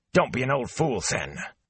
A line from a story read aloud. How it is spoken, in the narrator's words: Master Alvir blinked as if taken by surprise, then snapped